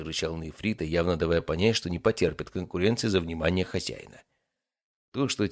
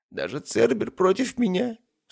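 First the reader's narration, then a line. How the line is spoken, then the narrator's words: Sobbing. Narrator (Russian): всхлипнул он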